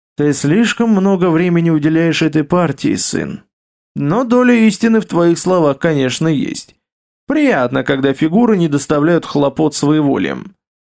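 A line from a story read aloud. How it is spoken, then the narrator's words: Sighing, then near-inaudible. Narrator (Russian): вздохнул государь и тихо, почти неслышно для своего довольного собеседника, договорил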